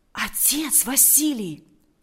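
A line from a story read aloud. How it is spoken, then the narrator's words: Whisper. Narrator (Russian): прошептал Валериан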